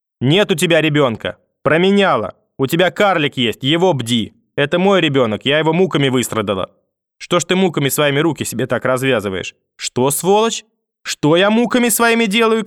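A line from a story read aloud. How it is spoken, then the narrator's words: Old woman shouting. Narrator (Russian): крикнула бабушка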